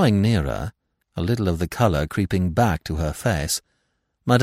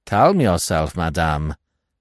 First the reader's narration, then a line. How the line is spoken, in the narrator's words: said Giraud coldly